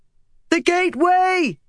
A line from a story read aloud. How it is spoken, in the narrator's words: she shouted at the others